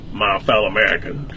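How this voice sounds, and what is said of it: President Johnson impression, Texas drawl. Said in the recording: “I did a Johnson, President Johnson impression ... with a Texas drawl”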